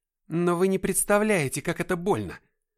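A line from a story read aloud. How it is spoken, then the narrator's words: Exclaiming. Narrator (Russian): воскликнул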